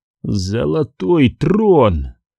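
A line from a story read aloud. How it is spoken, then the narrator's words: Breathed out. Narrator (Russian): выдохнул Каррос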